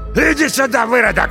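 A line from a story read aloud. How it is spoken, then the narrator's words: Shouting. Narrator (Russian): лысый закричал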